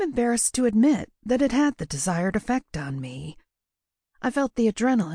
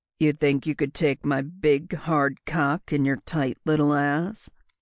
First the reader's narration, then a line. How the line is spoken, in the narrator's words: he asked again, making his voice go deeper and more sultry